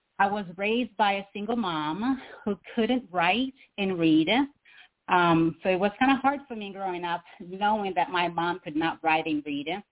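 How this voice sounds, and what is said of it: Slight Brazilian accent. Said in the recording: “I was born in poverty in a third world country in Brazil, South America. So you're going to hear a little bit of my accent.”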